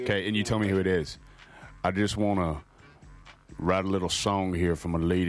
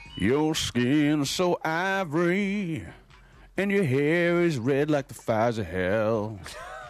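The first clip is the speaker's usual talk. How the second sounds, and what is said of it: Imitates another person's singing voice. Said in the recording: “do a quick impression ... Keith ... Or is it Toby?”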